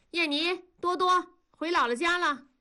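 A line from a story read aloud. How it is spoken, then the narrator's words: Calling out. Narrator (Chinese): 文丽说着，喊道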